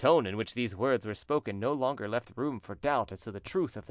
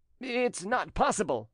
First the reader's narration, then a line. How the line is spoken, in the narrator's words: exclaimed Trumeau